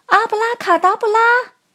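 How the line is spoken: Shout. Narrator (Chinese): 然后大喊了一声

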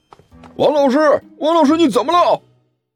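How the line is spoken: Loud shout. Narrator (Chinese): 有人大声喊道

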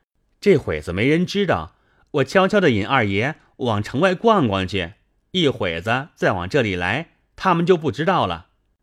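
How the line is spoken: Giggling. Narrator (Chinese): 明烟嘻嘻笑道

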